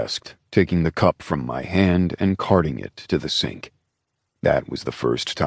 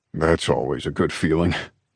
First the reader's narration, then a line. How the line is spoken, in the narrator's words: he chuckled